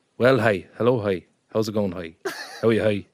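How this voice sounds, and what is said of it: Exaggerated Irish country accent. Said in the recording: “putting on a country accent ... Give us your country accent.”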